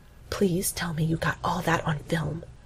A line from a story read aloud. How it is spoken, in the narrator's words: Jake says in a stage whisper